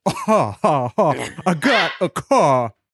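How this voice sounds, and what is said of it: Goofy dumb old-school rap voice. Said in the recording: “People in the '80s used to rap in dumb voices.”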